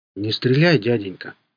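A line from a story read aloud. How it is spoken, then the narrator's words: Hollow, muffled voice. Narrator (Russian): сказал зомби глухим голосом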